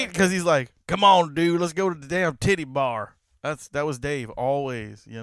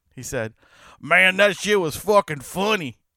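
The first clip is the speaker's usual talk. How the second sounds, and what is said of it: Imitates another person's voice. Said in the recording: “my terrible Dave impression, but he really does sound like this ... That's a pretty goddamn spot on Dave impression.”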